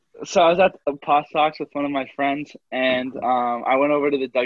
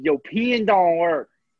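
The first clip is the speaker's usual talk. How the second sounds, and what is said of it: Imitated Texan accent. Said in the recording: “in his, as my friend says, Texanian accent”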